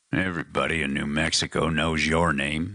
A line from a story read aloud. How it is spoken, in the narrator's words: Matthews growled